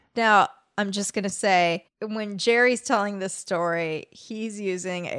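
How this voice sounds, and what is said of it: Usual voice. Nothing is said of it.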